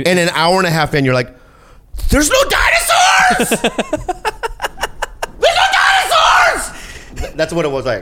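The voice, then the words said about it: Screaming loudly. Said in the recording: “I think I'm screaming too much ... The screaming bit's done.”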